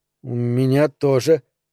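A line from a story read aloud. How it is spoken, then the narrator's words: Stammering quick reply. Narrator (Russian): заикаясь, ответил он, не раздумывая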